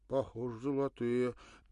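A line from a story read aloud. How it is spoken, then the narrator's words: Hesitant, plaintive young mutter. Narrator (Russian): нерешительно, почти жалобно пробормотал молодой солдат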